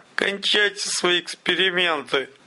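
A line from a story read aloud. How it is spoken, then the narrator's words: Strained. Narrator (Russian): выдавил тот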